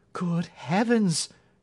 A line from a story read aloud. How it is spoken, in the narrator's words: she cried